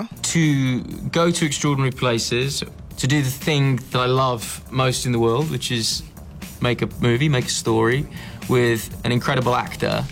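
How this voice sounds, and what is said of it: British accent. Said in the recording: “what I wanted you to hear was his accent. So he's clearly British”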